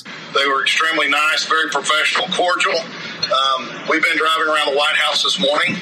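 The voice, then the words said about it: Texan-sounding accent. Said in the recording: “everyone with an accent like that ... everything's bigger in Texas”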